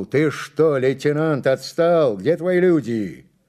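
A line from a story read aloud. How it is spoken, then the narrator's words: Shout. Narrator (Russian): он крикнул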